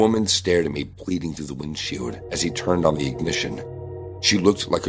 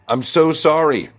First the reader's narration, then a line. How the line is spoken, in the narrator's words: I shouted back